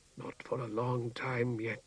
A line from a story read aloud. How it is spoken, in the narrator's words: whispered